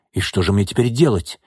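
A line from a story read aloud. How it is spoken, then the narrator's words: Hysterical exclamation. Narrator (Russian): истерично воскликнул Соколов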